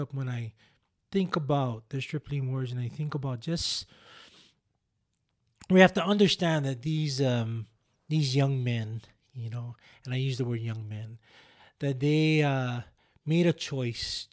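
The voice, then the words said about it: Choked-up, emotional voice. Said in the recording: “I'm getting a little choked up now, but I always get a little choked up”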